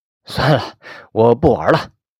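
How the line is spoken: Forced smile, uneasy. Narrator (Chinese): 一脸的陪笑，我说不出的难受，说

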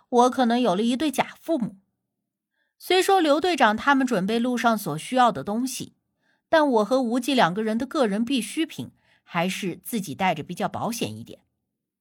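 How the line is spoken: Wry inner thought. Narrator (Chinese): 我苦笑的心说

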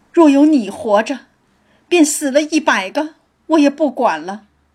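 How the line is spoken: Wailing, weeping. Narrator (Chinese): 叫着贾珠哭道

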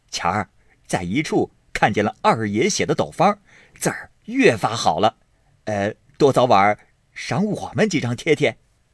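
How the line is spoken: Group laughing. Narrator (Chinese): 众人都笑说

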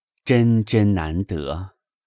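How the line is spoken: Sighing. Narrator (Chinese): 宝玉叹道

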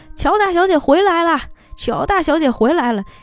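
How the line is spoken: Hurried overwhelmed shout. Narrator (Chinese): 刘三这个时候也受不了了，赶紧喊了一声说

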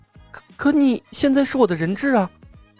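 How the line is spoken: Soft chuckle. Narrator (Chinese): 冯公子轻笑了一声

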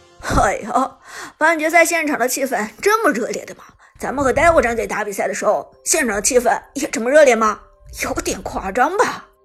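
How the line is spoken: Laughing. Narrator (Chinese): 乌兹笑着说道

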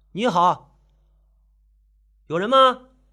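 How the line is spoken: Calling out. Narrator (Chinese): 郑凯喊道

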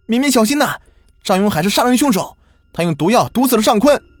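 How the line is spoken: Furious loud shout. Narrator (Chinese): 左小年是睚眦欲裂的瞪着张永海，他冲着宋敏敏大声喊道

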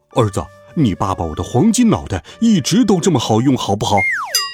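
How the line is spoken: Father shouting. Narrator (Chinese): 爸爸大叫

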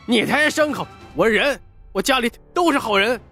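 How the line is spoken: Frightened defiant child shouting. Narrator (Chinese): 沈宝到底是年纪小，又怕又不服气，但却仍咬牙大喊道

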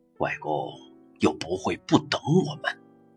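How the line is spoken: Low voice. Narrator (Chinese): 他说，低声道

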